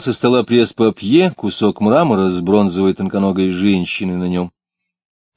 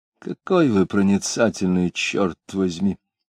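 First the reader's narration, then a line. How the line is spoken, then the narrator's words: Quiet grumble. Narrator (Russian): тихонько проворчал Иноков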